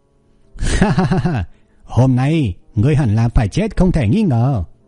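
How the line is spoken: Laughing loudly. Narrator (Vietnamese): cười lớn nói

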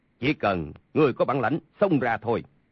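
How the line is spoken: Cold. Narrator (Vietnamese): Sa Thông Thiên lạnh lùng nói

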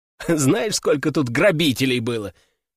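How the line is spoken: Asking after laughing. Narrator (Russian): отсмеявшись, спросил я

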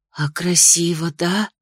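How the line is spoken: Soft drawl. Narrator (Russian): протянула Ририан тихо

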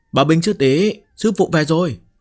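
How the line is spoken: Loud shout. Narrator (Vietnamese): hét lớn

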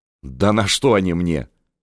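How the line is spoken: Scoffing. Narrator (Russian): хмыкнула Анна Иоанновна

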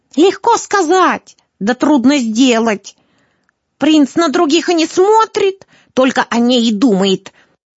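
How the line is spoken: Old woman snapping back. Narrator (Russian): огрызнулась старуха

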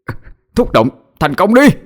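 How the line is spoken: Straining shout. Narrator (Vietnamese): Cậu cố sức mà hét lên

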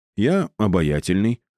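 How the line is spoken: Plain. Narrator (Russian): ответил ему напарник

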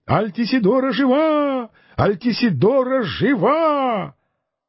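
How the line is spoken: Crowd exclaiming in unison. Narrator (Russian): все присутствовавшие почти в один голос воскликнули

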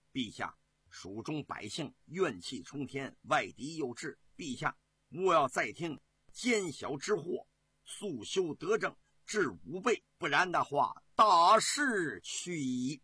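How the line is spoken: Stern, harsh. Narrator (Chinese): 张云…厉声说

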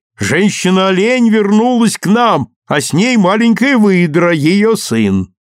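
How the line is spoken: Women shouting loudly. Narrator (Russian): Женщины громко кричали

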